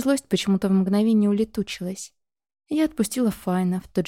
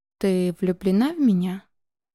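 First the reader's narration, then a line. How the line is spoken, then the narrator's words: Calm question. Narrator (Russian): Совершенно спокойным тоном спросил он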